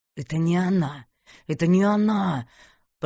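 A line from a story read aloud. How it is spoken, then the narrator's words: Hissed. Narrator (Russian): прошипел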